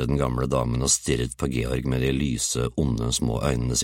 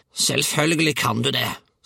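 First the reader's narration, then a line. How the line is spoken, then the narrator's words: Snarled. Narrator (Norwegian): snerret hun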